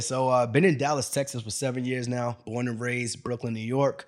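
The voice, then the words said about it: Non-local New York accent. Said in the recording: “your accent isn't from here.”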